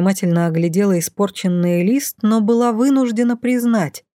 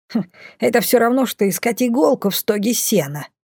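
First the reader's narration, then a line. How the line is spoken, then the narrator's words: Snorting. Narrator (Russian): фыркнула Мина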